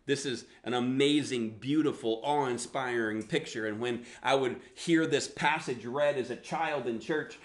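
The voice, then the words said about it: Southern US accent. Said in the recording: “I grew up in the South, so that's where the accent come from.”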